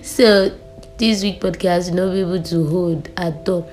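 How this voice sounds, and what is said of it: Sick, sore-throated voice. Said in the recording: “I'm down with a really bad voice... the way I'm talking right now is actually painful... I have cough and sore throat and catarrh... my voice is actually more clearer”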